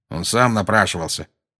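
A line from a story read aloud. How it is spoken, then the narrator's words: Grumbling. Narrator (Russian): проворчал Дадли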